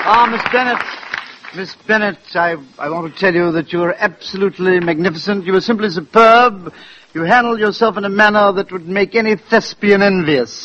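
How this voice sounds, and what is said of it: Put-on English accent. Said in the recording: “why the English accent? ... I've always wanted to be an English actor.”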